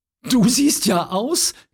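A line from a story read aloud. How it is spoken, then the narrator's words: Little girl giggling. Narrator (German): kicherte die Kleine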